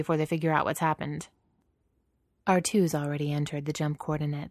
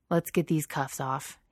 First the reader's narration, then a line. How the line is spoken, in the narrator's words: he says gruffly